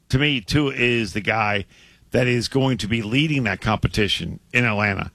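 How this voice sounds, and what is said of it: Strained, failing voice. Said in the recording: “I'm losing my voice. ... your voice is struggling a little bit”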